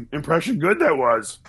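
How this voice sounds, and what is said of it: Yoda character voice impression. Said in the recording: “I'll do my Yoda. ... Yoda impression”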